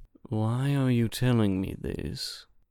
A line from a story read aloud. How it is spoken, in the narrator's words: He asked slowly